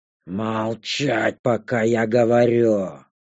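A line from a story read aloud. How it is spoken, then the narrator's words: Dragon's roar. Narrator (Russian): рыкнул дракон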